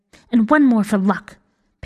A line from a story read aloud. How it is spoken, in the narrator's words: Pink said fiercely